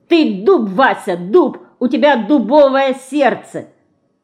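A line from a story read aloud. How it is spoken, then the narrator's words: Shouting. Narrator (Russian): кричала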